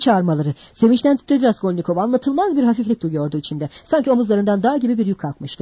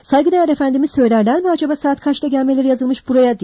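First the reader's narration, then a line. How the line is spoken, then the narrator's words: Shouted. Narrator (Turkish): diye bağırdı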